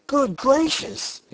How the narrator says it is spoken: exclaimed Shaggy

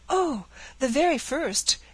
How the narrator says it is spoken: exclaimed the eager girl

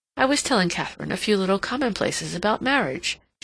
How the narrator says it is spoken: she said with a little laugh

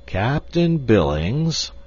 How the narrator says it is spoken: he drawled finally

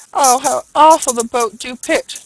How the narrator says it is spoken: cries a third

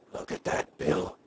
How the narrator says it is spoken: Henry whispered

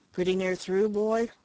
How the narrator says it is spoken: Strawn, who had been silent and bewildered for a long time, asked anxiously

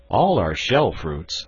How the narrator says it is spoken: answered I

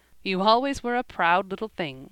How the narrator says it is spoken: said, laughing

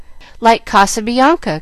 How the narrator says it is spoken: cried Jill, much impressed

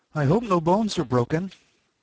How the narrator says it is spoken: She was quite frightened this time, and said in an anxious tone

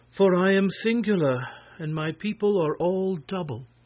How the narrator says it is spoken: she answered, sighing

